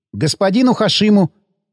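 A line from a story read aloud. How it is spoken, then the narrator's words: Squeak. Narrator (Russian): пискнул я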